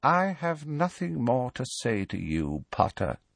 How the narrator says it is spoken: he said quietly

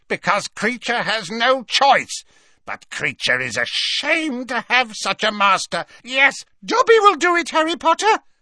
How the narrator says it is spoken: squeaked Dobby, his tennis-ball-sized eyes still swimming with tears

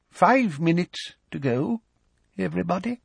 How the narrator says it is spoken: Professor Tofty's voice said feebly

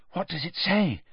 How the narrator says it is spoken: Hermione asked breathlessly

